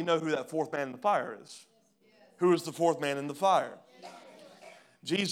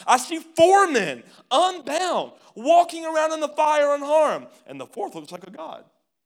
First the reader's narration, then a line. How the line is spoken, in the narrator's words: Nebuchadnezzar shouted